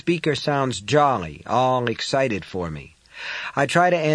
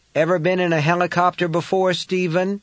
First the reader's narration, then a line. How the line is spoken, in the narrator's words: Someone shouts into my ear